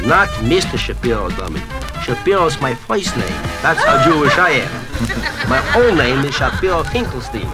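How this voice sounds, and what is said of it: Pronounced comic Jewish dialect. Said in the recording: “And a rather pronounced dialect at that, I might add ... I wouldn't have thought so with that accent.”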